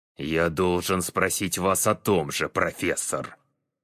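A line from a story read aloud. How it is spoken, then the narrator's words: Growl. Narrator (Russian): прорычал Теодор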